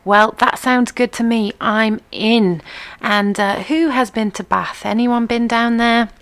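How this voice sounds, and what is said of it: Non-southern English regional accent. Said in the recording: “when I've done southern events and been picked on a little bit for my accent, as that really shows in the way I pronounce Bath”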